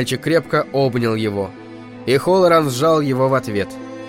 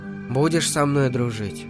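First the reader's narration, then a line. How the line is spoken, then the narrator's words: Barely audible. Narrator (Russian): Дэнни еле слышно выговорил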